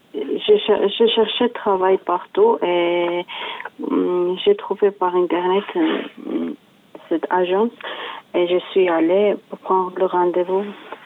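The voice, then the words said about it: Slight Georgian accent in French. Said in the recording (French): “on entend que vous avez un petit accent ... Je suis géorgienne”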